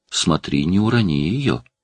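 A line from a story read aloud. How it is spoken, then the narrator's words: Whisper. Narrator (Russian): прошептала Элли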